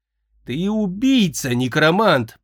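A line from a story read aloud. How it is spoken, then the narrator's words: Wretched moan. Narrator (Russian): простонал несчастный Эбенезер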